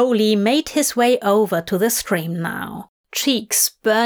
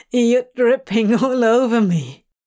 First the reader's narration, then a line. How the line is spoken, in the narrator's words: Crowley said with a shaky laugh